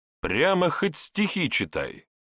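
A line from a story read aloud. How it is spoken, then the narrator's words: Deliberately loud, wistful complaint. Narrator (Russian): Пожаловавшись нарочито громко с тоской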